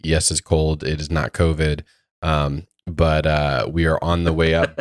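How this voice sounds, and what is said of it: Lower voice from a cold. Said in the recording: “We've been battling some colds last week ... my voice is a couple dBs lower.”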